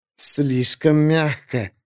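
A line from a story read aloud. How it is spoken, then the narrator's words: Hissed. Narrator (Russian): прошипела Изерн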